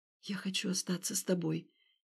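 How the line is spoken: Quiet. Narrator (Russian): тихо проговорила она

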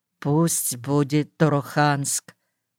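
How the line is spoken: Quiet. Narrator (Russian): Я весь сжался, тихо сказал

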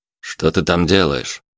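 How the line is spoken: Policeman's menacing call. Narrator (Russian): грозно окликнул полицейский

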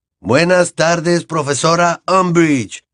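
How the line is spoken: Class shouting together. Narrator (Spanish): gritó la clase

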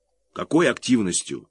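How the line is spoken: Irritated. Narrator (Russian): раздраженно повторил он

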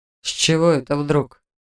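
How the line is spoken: Lazy question. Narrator (Russian): лениво поинтересовался Харт

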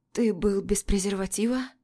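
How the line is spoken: Hoarse question. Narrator (Russian): спрашиваю хрипло

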